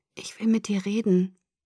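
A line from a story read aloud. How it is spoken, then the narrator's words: Weak voice. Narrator (German): sagte mit schwacher Stimme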